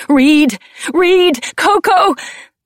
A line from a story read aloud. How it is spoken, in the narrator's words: I screamed